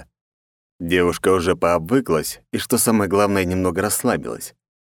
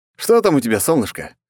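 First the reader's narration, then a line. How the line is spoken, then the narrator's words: Amused snort. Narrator (Russian): хмыкнул я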